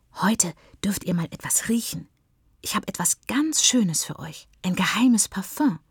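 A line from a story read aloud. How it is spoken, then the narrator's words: Whispering. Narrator (German): flüstert Siri ihren Freunden zu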